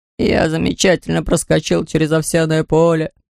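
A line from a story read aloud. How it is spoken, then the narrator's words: Weak voice. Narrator (Russian): начал слабым голосом Лабан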